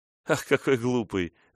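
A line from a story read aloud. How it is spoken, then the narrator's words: Laughing. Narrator (Russian): засмеялась она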